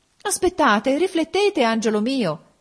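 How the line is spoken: Mother exclaiming. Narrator (Italian): esclamò la madre

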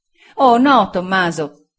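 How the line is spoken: Exclaimed. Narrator (Italian): esclamò Sofia

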